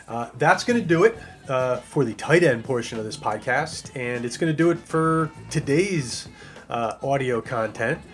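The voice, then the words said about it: Hoarse, strained voice. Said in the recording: “You can probably hear it. I'm getting a little hoarse.”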